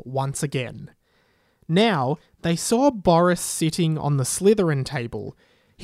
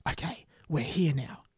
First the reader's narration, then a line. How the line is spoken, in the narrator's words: he whispered